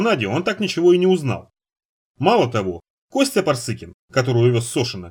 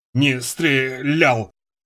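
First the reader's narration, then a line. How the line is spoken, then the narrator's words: Hoarse rasp. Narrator (Russian): удалось прохрипеть ему в ответ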